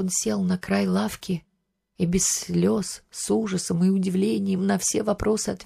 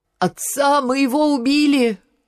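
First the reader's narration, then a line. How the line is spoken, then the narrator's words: Shouted. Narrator (Russian): Генька закричал с порога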